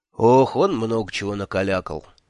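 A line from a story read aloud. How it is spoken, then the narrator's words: Sigh. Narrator (Russian): вздохнул Кофа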